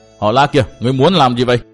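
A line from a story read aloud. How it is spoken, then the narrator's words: Shouted. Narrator (Vietnamese): theo tiếng quát tháo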